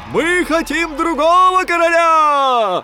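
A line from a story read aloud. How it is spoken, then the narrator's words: Soldiers shouting. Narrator (Russian): кричали солдаты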